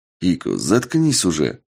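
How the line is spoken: Displeased grumble. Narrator (Russian): недовольно буркнул

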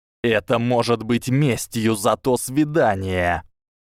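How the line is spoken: Reluctant hiss through clenched teeth. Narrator (Russian): Драко был не расположен к болтовне, но нашел в себе силы прошипеть сквозь стиснутые зубы

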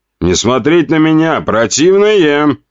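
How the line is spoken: Nasty voice. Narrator (Russian): сказал я мерзким голосом

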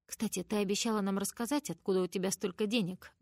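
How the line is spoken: Plain. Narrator (Russian): говорит Джей

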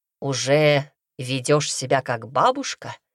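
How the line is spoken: Scoffing. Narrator (Russian): хмыкнул он при виде меня

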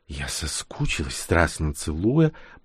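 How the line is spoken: Whisper. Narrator (Russian): прошептала она

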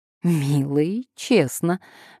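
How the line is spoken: Cheerful laugh. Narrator (Russian): весело рассмеялась Паула

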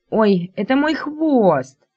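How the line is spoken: Indignant. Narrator (Russian): возмущенно

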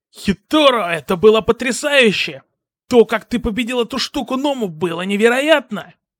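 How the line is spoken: Excited shout. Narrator (Russian): крикнул Эйджера

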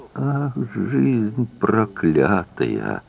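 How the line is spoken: Mother's muffled moan. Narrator (Russian): простонала мать в ей щеки

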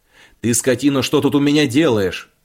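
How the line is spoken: Shouting. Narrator (Russian): кричал

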